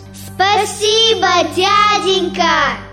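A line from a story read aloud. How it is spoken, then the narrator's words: Excited girls calling out. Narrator (Russian): Девочки с сильно бьющимися сердечками крикнули вслед уезжающему атаману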